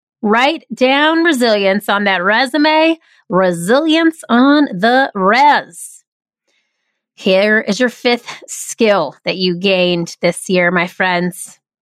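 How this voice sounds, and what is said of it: Nasal twang. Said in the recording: “I have a nasal twang. Sometimes it sounds weird.”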